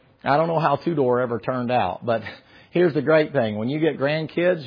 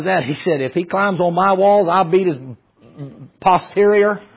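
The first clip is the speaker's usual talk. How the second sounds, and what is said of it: Put-on Southern accent. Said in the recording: “In Romanian brogue, all my accents sound the same. Filipino sounds the same. Romanian sounds the same. So I make him Southern.”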